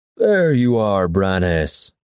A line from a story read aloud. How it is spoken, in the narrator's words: the voice bellowed after Kairos